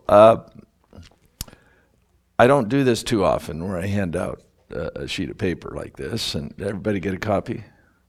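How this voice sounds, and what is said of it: Voice not at full strength. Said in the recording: “You can tell my voice isn't quite there”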